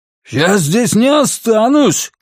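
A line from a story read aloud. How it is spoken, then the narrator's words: Shouting. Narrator (Russian): кричал боксер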